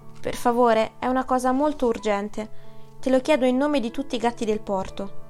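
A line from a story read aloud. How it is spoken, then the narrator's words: Pleading. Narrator (Italian): implorò Zorba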